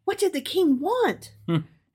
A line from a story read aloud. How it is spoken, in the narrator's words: she asked excitedly